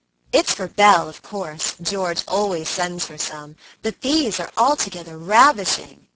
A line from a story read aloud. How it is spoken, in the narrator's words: cried Annie, with a great sniff